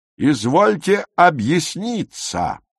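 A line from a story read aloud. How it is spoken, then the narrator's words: Thundering old man. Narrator (Russian): прогремел седоусый учитель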